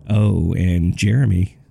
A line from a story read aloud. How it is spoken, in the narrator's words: she chuckled